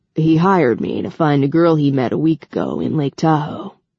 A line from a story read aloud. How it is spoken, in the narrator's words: Rafe growled